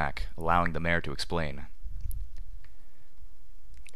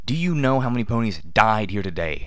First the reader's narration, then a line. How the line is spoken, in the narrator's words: Rainbow Dash bellowed